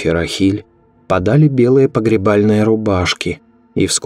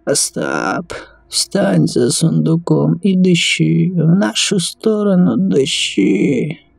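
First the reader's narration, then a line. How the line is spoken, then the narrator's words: Weak wheeze. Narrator (Russian): Слабым голосом сипел Рав Давид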